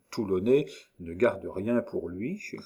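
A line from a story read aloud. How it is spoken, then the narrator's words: Suspicious murmur. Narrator (French): murmura Picpus avec défiance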